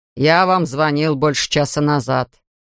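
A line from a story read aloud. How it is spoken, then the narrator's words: Angry grumble. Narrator (Russian): сердито пробурчал Элвин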